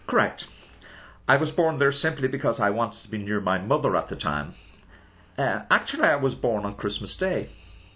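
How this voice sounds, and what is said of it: Irish accent. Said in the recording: “You're Irish, obviously, with that accent.”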